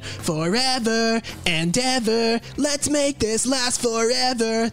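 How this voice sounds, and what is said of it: Imitates a singer's voice. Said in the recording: “my Tom DeLonge impersonation”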